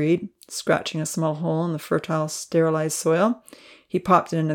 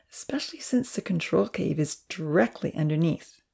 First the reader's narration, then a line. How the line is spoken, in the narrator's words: Evan stated with a chuckle